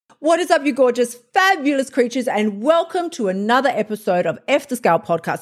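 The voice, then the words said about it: Very excited, energetic voice. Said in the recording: “as you can tell from my voice, a little, possibly a little too excited”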